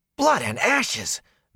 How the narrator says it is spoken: Matt yelped

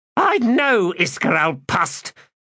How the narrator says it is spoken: Magora snapped

